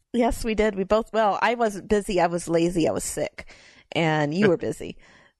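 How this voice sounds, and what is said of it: Rough, hoarse voice. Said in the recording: “I have bronchitis ... my voice sounds a little rougher than usual, that's because I'm still coughing”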